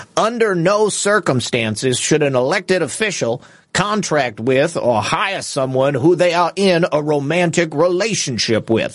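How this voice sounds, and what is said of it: Imitates another person's voice. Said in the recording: “That's my best impression of Commissioner Bob Ellis. I don't even know if he sounds like it.”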